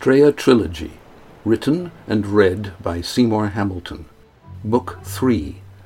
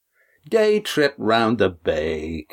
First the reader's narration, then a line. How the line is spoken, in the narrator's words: Cam scoffed